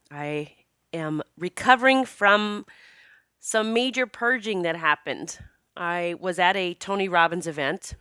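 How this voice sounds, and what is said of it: Slightly rough voice. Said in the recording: “my voice might sound a little rough today”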